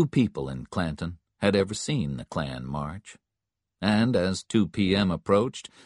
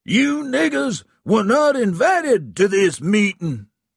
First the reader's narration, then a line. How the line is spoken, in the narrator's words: Stump screamed into the microphone